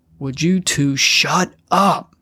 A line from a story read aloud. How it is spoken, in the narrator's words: Gary roared